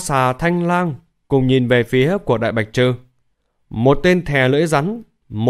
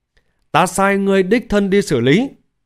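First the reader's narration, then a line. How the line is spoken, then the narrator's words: Angry. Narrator (Vietnamese): Tông chủ giận dữ nói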